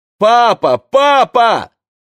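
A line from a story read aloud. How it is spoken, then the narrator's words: Shouted. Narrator (Russian): закричал Одет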